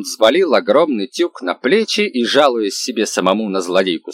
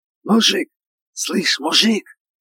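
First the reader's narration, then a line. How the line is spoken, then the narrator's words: Loud whisper. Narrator (Russian): громкий шепот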